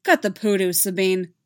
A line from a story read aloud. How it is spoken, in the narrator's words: Zeb snapped